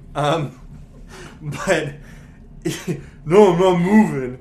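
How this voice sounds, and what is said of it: Imitates a young child's voice. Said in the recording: “doing the best impersonation of, like, a five-year-old ... he sounded like he'd already been through puberty”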